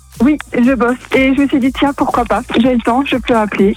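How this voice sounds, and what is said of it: Alsatian French accent. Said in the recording (French): “t'es alsacienne ... J'ai reconnu un peu l'accent ... c'est vrai qu'on l'entend assez bien”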